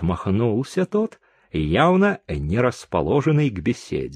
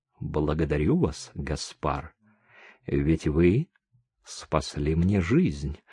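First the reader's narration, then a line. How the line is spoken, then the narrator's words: Quiet. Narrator (Russian): тихо сказала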